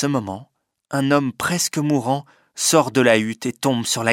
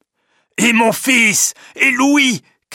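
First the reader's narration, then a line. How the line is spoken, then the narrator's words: Shouted. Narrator (French): crie Jean Cornbutte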